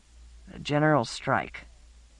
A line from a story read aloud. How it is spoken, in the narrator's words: Laia muttered